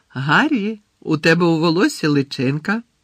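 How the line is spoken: Cheerful. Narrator (Ukrainian): весело повідомила Джинні

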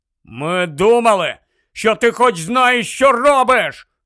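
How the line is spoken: Shouted reply. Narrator (Ukrainian): закричав у відповідь Рон

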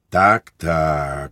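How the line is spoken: Priest sighing. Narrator (Ukrainian): зітхнув отець духовний

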